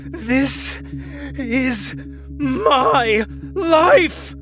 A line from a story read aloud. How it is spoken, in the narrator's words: Jake panted